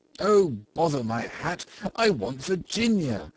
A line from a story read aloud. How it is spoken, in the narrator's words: cried the little Duke, laughing